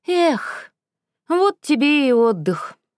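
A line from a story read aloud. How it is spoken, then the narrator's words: Sighing. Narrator (Russian): вздохнул он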